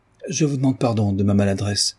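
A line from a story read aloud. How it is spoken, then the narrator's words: Young man, altered voice. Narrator (French): dit le jeune homme d'une voix altérée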